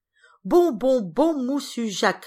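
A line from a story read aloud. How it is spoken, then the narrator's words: Shouted. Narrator (French): criait-il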